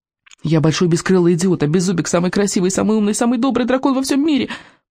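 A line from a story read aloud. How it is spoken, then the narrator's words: Rapid rattling. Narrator (Russian): протараторил Икинг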